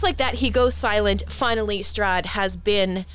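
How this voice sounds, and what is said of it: Usual voice. Nothing is said of it.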